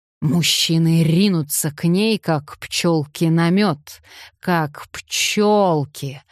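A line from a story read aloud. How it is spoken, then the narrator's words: Prophetic drawl, stretched final word. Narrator (Russian): с пророческим видом протянул Хардвик, нарочито растягивая последнее слово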